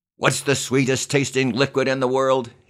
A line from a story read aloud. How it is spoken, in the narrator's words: yelled again